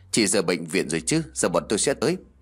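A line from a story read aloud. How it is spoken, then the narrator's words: Deep gruff voice, phone. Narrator (Vietnamese): Đầu dây bên kia vang lên giọng nói ồm ồm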